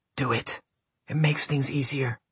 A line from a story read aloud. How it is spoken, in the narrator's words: someone dared to whisper